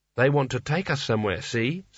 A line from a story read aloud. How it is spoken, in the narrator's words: said Kanina